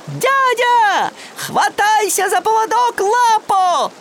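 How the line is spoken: Shouted. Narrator (Russian): крикнул он

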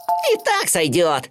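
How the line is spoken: Piglet laughing loudly. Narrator (Russian): расхохотался поросенок

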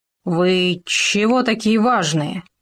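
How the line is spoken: Hoarse wheeze. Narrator (Russian): прохрипел он

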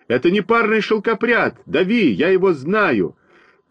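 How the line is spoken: Shout. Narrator (Russian): крикнул один из них

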